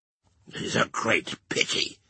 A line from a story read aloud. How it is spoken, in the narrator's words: croaked Jacques III, dubiously shaking his head, with his cruel fingers at his hungry mouth